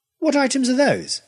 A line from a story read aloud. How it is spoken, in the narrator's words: I demanded crossly